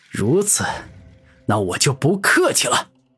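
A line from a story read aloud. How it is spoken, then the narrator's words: Loud. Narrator (Chinese): 古天明大声说道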